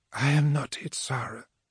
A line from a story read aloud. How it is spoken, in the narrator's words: whispered through her gargoyles